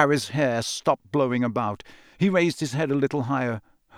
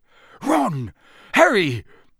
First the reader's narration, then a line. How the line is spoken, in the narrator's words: His voice sounded shaky